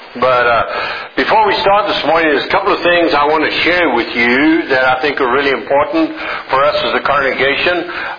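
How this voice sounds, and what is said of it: Southern drawl. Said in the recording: “my most current and updated southern drawl”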